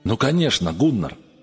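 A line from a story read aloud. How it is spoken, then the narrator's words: Exclaimed. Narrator (Russian): воскликнул он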